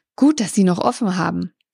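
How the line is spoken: Panting. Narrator (German): keuchte

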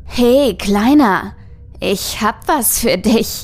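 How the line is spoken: Call ending in giggle. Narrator (German): rief, wobei das Dich in einem Kichern unterging

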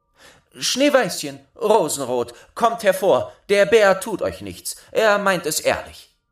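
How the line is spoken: Called out. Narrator (German): Dann rief sie

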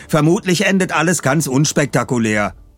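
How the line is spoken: Called from behind. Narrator (German): rief Bob von hinten

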